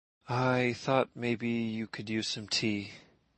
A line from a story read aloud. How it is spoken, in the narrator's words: murmured